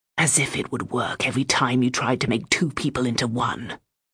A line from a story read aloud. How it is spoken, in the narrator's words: Bren whispered to me in scorn